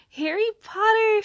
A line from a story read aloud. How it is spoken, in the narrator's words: she squealed